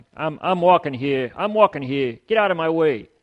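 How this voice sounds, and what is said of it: Put-on Brooklyn accent. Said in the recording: “my accent, I'm practicing. Yeah. That was a Brooklyn accent”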